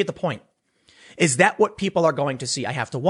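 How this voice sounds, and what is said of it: Usual voice. Nothing is said of it.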